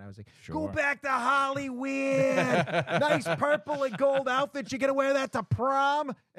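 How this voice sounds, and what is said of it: Boston accent, heckling. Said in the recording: “I am from Boston. I have a pretty good accent.”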